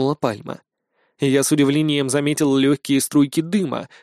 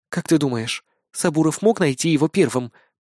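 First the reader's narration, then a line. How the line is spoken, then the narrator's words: Whispered. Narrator (Russian): прошептала Акера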